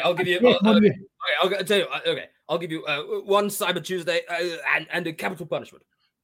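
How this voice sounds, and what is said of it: Boris Johnson impression. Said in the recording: “That's Boris Johnson. ... I thought that was Theresa May. ... That was such a good impression.”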